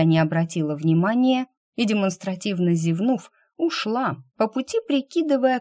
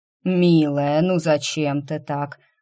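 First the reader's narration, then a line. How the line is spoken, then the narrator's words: Reproachful drawl. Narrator (Russian): укоризненно протянул кот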